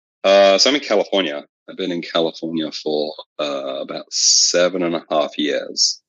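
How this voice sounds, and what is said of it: Non-Californian accent. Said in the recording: “As you can tell from the silky smooth accent, that is not where I'm originally from... That's not how Californians sound”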